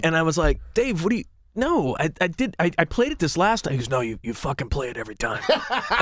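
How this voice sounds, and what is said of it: Usual voice. Nothing is said of it.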